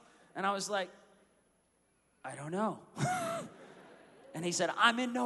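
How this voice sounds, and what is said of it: Usual voice. Nothing is said of it.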